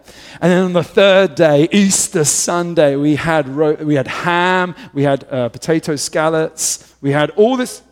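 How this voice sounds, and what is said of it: British accent. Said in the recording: “don't judge the British man. It was the accent.”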